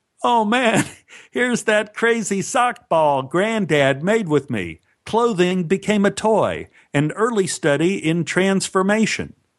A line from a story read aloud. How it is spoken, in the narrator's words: He laughed and said